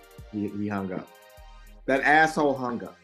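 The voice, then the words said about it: Impression of M'Baku from Black Panther. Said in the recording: “In my best Mbatu voice from Black Panther”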